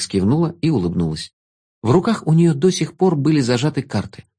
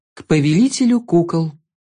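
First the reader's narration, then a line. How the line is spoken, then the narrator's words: Solemn pronouncement. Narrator (Russian): Торжественно произнесла она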